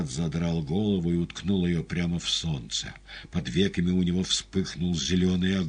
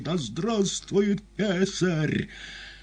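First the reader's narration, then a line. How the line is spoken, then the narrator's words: Terrible collective shout. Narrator (Russian): страшно прокричали солдаты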